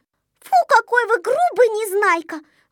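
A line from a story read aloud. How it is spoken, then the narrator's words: Exclaimed. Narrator (Russian): воскликнула Снежинка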